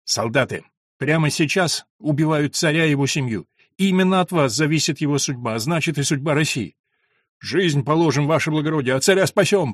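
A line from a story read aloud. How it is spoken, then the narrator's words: Booming thunderous voice. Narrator (Russian): прогремело над машинами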